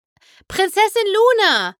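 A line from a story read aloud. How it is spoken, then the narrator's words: Calling out. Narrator (German): rief Twilight Sparkle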